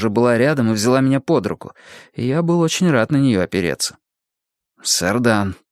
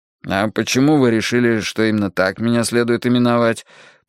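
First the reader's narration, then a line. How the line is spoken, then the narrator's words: Grumbling. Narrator (Russian): проворчал я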